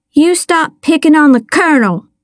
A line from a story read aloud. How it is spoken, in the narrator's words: I shouted